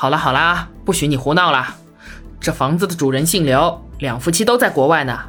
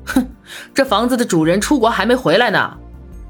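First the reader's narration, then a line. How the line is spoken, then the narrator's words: Loud half-mocking voice. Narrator (Chinese): 大嗓门 似笑非笑地说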